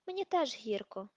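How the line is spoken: Sigh. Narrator (Ukrainian): зітхнув Люпен

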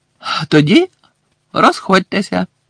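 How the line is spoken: Cheerful. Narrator (Ukrainian): радісно мовив Бегмен

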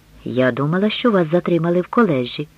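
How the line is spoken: Quiet. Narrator (Ukrainian): тихо промовила мати

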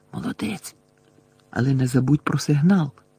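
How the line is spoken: Whispering. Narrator (Ukrainian): Герміона прошепотіла

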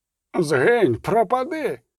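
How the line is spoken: Priest shouting. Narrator (Ukrainian): Закричав жрець

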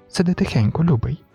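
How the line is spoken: Whispered reply. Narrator (Ukrainian): знову пошепки відповіла Джейніс

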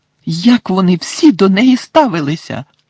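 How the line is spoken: Indignant exclamation. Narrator (Ukrainian): Обурено вигукнула Герміона

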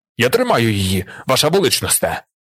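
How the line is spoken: Baron shouting. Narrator (Ukrainian): крикнув барон

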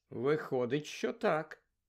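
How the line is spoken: Answered calmly. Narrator (Ukrainian): спокійно відповів Гаррі

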